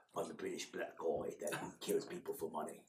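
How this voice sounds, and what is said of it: Idris Elba impression, British accent. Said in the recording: “Unless they're Idris Elba.”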